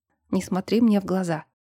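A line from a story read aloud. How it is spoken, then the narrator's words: Reaper's whisper. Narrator (Russian): прошептал он, обернувшись жнецом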